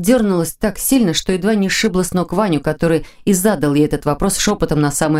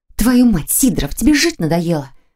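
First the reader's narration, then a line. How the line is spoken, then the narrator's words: Quiet agitated hiss. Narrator (Russian): Тихо прошипела она, стараясь унять готовое выскочить из груди сердца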